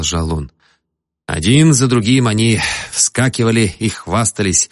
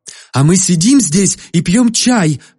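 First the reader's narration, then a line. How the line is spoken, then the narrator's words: Exclaiming. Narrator (Russian): воскликнула Мейбл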